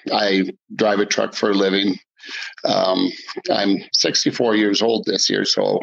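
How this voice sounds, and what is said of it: Non-British, American-sounding accent. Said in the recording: “Your accent gives away the fact that you're not British”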